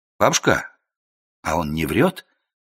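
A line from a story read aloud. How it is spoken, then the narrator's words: Quiet question. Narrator (Russian): тихо спросил я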